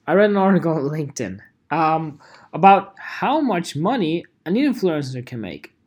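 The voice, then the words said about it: Put-on British accent. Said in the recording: “when I speak in British accent.”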